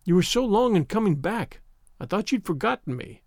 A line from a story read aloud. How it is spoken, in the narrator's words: cried Avery